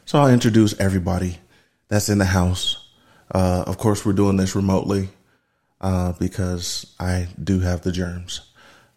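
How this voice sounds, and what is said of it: Sick voice cutting in and out. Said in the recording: “The vid got a hold of me, so my voice is going in and out.”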